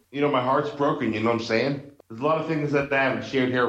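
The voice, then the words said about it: Boston accent. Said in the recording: “You definitely have that Boston accent still.”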